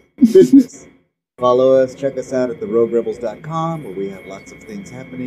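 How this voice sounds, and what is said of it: Usual voice. Nothing is said of it.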